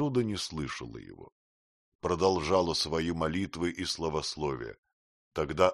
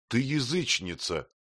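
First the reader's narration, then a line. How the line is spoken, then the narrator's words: Sorrowful fearful exclamation. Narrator (Russian): воскликнул он, и душа его томилась печалью и страхом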